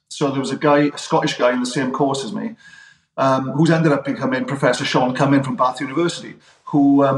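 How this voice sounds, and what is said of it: Welsh accent. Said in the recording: “my accent stuck out because I was a Welshman”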